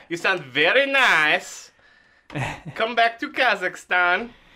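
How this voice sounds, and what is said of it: Deliberately bad Borat-style accent. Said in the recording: “my impression of a guy doing a bad impression of a Borat impression”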